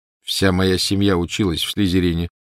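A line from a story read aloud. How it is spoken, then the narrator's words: Plain. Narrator (Russian): сказал он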